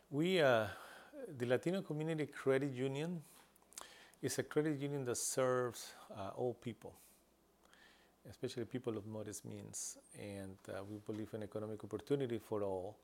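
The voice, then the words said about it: English spoken with an accent. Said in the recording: “We speak English with an accent”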